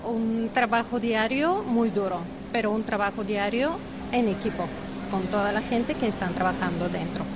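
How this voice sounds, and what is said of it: Bulgarian accent in Spanish. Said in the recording (Spanish): “ese acento no es de La Roda ... Yo soy de Bulgaria”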